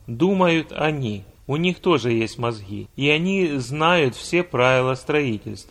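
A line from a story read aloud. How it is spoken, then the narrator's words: Calm statement. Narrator (Russian): главный архитектор спокойно сказал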